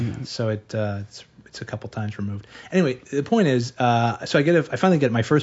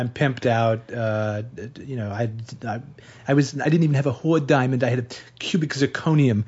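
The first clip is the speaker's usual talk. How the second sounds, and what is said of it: Imitates another person's voice. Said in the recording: “I'm actually doing an impression of my producer, Matt Holzman, doing an impression of Hank Azaria, doing an impression of Woody Allen”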